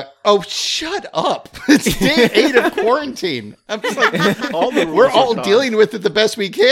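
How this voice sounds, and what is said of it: Usual voice. Nothing is said of it.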